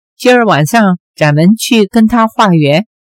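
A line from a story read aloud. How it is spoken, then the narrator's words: Laughing. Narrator (Chinese): 令狐冲笑道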